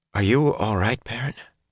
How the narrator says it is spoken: she asked hesitantly

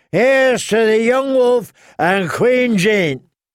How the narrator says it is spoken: someone yelled

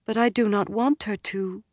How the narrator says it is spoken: Egwene said sadly

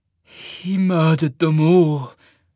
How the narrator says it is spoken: Cole rasped

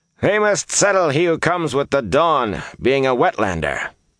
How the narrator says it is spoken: Han barked

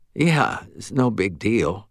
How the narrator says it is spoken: said, her voice slurred with fatigue

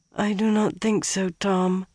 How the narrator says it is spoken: she mumbled

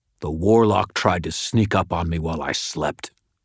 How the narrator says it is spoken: Morgan spat

